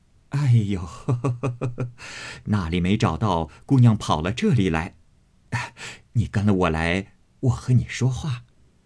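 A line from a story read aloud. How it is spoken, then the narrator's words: Laughing woman. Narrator (Chinese): 他嫂子笑道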